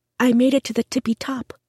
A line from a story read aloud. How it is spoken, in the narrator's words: said softly